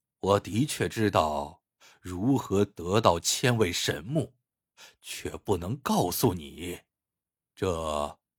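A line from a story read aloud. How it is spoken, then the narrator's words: Long sigh. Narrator (Chinese): 妙成长叹一声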